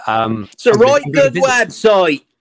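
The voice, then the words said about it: Poor put-on Norfolk accent. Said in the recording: “my rubbish Norfolk accent”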